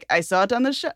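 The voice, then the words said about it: Bad imitation of an Israeli accent. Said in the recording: “bad Israeli impression”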